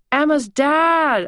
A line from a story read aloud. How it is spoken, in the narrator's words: I cried, lighting up